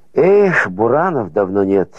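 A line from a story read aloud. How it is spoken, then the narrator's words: Sighing. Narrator (Russian): вздохнул краснолицый и упитанный латыш Кильдикс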